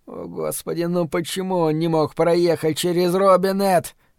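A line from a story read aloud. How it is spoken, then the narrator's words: Groaning. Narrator (Russian): простонал Бобби Терри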